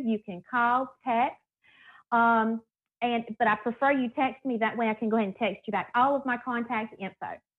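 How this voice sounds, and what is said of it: Southern American accent. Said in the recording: “that Southern accent”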